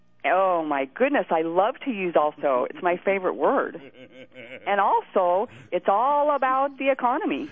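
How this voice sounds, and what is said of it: Exaggerated folksy twang, imitates another person's voice. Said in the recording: “you do have a little bit of that Sarah Palin twang ... I work on that twang, and I can work it a little bit better ... I try to drop those G's and hold those O's”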